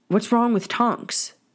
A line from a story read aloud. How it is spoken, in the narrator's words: Harry finally blurted out